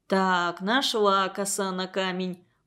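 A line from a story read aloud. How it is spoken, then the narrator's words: Father muttering. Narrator (Russian): пробормотал отец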